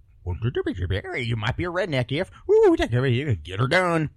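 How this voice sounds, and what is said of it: Mock Southern redneck comedian voice. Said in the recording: “my my imitation of the of the Blue Collar Comedy Tour”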